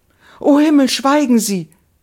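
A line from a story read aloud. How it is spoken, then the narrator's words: Young woman crying out. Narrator (German): rief die junge Frau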